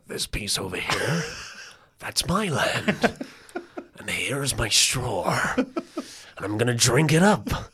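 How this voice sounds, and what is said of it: Imitates a film character's voice. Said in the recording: “It's a good impression.”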